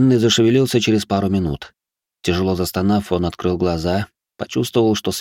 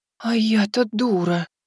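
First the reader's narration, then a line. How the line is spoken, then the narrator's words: Shocked whisper. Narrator (Russian): потрясенно прошептала лисица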